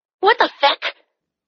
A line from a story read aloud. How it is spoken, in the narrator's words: Danny snapped